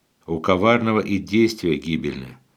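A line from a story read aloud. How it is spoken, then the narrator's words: Plain. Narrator (Russian): говорит пророк Исаия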